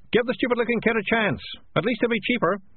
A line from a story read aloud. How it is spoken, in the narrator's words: someone at the back shouted